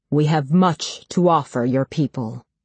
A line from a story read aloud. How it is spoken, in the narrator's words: continues in his booming, charitable voice